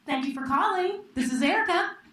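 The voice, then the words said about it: Polished customer-service phone voice. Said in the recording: “What you all just heard was my phone voice.”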